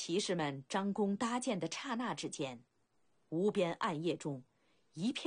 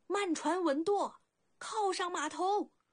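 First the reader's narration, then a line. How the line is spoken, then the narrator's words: Leader's shrill shout. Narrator (Chinese): 头目一声尖锐呼喊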